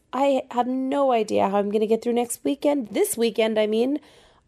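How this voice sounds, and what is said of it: Strained, failing voice. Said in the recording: “losing my voice. I've strained my voice.”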